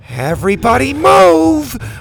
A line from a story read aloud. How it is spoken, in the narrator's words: Bo shouted